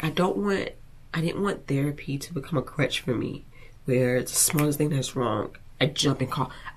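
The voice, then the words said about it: Emotional, teary, sniffling voice. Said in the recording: “my nose is dripping ... I didn't think I was gonna get emotional”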